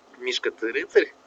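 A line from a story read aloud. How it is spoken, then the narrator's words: Plain. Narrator (Russian): сказал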